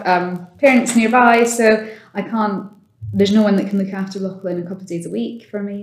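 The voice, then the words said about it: Noticeable non-local accent. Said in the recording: “You can obviously hear from my accent.”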